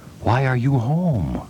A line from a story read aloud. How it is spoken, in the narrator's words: The cook said ever so softly